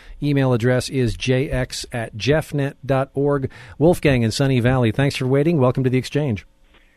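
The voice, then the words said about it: East Coast American accent. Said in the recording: “it's nice to hear an East Coast accent.”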